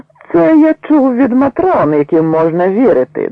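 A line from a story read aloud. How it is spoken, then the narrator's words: Loud, ostensibly aside remark. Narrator (Ukrainian): додав ротмістр, звертаючись нібито до друга, якого прозивали Шпіцом, але так голосно, що всі чули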